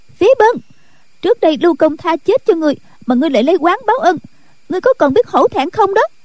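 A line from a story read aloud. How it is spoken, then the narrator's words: Angry shout. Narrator (Vietnamese): rồi quát lên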